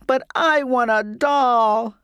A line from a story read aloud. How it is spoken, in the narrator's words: I sobbed